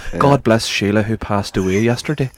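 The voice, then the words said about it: Put-on Northern Irish accent. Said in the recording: “In a Northy accent.”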